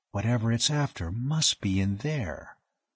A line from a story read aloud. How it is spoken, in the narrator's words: Dane said softly